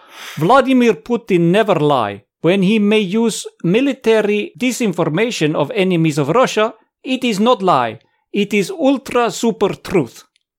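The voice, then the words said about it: Put-on Russian accent. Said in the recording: “I will do this in a Russian accent. I'm sorry if I offend any nice Russians, but it has to be said in a Russian accent.”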